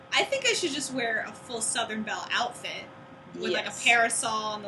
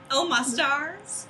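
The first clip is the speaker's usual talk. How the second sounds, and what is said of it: Put-on Southern belle accent. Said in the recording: “your, like, Southern Belle voice”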